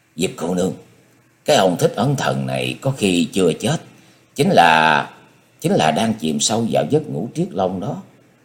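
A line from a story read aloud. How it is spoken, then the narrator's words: Hushed urgent voice. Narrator (Vietnamese): nhỏ giọng nói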